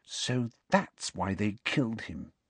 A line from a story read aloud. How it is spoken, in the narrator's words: she said quietly